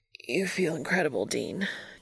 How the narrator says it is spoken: Castiel rasps

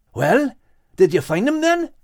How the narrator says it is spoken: asked Max eagerly

